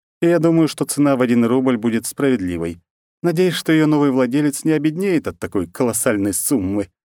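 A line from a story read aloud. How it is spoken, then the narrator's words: Laughing. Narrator (Russian): рассмеялась одна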